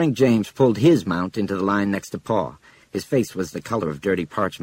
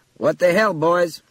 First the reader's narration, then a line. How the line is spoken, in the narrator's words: Frank cried